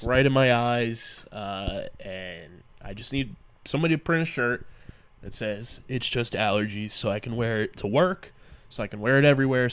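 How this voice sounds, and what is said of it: Stuffy congested voice. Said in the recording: “you can kind of hear it in my voice, a little stuffy today”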